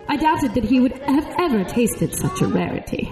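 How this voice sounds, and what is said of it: Put-on British accent. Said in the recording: “I'm getting more British as we go ... putting on a British accent”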